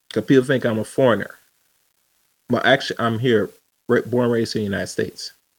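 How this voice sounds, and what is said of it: English-sounding accent. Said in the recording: “I have this so-called English accent”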